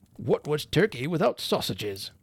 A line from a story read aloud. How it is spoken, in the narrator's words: gruffly asked Mr